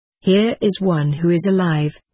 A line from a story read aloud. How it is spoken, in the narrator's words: said a voice